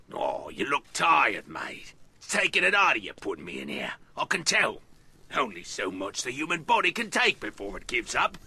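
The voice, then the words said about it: Fake Cockney English accent. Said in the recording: “this is a fake accent, it's one I think we might have missed in our fake accents top five ... he picked up a Cockney”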